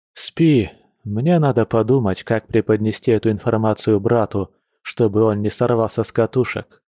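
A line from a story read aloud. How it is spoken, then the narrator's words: Heavy sigh. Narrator (Russian): тяжко вздохнул Яр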